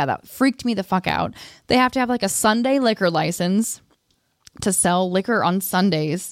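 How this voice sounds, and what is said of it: Usual voice. Nothing is said of it.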